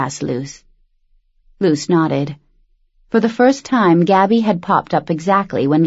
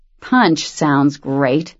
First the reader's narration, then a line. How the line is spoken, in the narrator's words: Cam said through gritted teeth